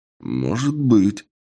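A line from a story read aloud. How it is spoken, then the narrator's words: Thoughtful. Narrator (Russian): задумчиво отвечаю я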